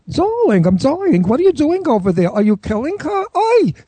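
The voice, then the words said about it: Older Jewish woman character voice. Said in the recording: “I'm in drag playing a Jewish woman who owns a nursing home ... I talk like this”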